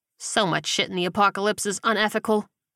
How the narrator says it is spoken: Calvin muttered

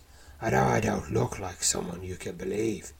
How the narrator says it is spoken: says, croaking out nearly every other word

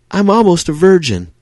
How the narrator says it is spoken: an eager-for-business hooker shouts

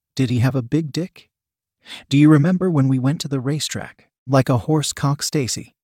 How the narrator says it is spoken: Christine whispered

